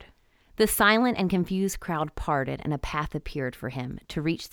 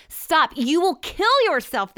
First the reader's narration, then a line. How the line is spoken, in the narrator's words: cried